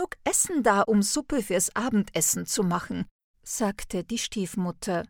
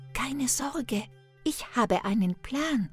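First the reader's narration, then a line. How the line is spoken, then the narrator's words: Whispered. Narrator (German): flüsterte Hänsel Gretel zu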